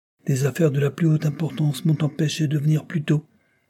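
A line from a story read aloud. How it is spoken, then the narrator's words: Plain. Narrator (French): répondit-il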